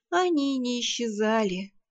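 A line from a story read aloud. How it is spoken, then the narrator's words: Sigh. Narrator (Russian): вздохнула я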